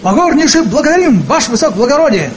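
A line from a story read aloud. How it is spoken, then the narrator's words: Soldierly bark. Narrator (Russian): гаркнул по-солдатски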